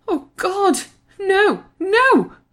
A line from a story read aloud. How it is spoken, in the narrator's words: screeched Joanne